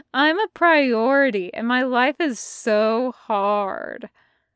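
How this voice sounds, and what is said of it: Mocking imitation of Jason. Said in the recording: “imitating Jason ... dropped the voice”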